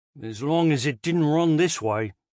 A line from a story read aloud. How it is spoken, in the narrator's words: Trevor muttered